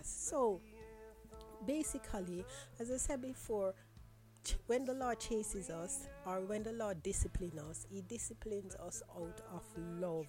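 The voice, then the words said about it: Weak, strained voice. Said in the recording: “my voice has decided to go down on me”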